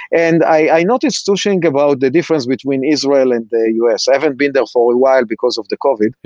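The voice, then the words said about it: Israeli accent. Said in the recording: “I'm sure that you can hear from my accent that I'm Israeli”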